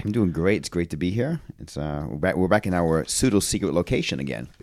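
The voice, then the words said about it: Maine accent. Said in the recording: “an amazing Maine accent.”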